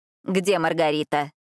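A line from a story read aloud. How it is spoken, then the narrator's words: Irritated question. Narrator (Russian): спросила графиня раздраженным голосом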